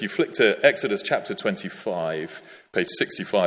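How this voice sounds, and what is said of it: Usual voice. Nothing is said of it.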